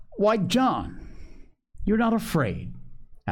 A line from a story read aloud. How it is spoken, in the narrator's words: asked Dr